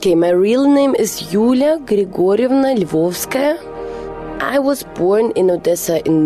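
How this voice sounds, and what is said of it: Usual voice. Nothing is said of it.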